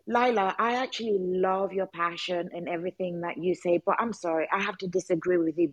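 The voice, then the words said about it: Speaks with an accent. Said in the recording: “You have an accent”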